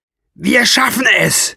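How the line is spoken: Shouting. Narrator (German): schrie Burbur-Chan

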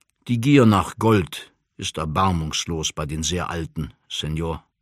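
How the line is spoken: Plain. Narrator (German): sagte er

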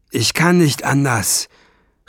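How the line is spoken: Tired dragon calling back. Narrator (German): rief der Drache müde zurück

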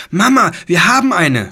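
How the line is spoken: Shouted. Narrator (German): schrie sie

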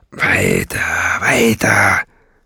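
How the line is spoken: Growling. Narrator (German): knurrte

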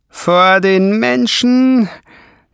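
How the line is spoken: Monster hissing. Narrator (German): zischte das Scheusal

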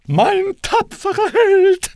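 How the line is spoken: Calling out. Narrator (German): rief sie

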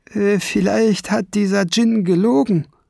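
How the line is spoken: Called out. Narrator (German): rief Kiesbart

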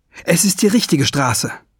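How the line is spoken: Calling out. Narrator (German): rief

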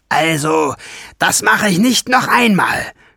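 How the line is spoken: Groaning. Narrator (German): stöhnte sie

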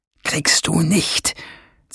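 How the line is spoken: Hissed. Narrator (German): zischte der Professor

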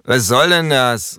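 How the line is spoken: Calling out. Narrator (German): ruft er

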